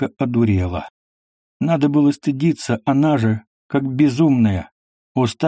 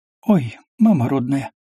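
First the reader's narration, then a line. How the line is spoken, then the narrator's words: Sudden sighing whisper. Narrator (Russian): Вдруг вздохнула и шепотом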